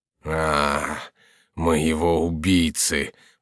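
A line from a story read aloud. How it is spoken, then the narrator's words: Groaning in pain, anger. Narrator (Russian): проговорил Монсоро, застонав от боли и от злобы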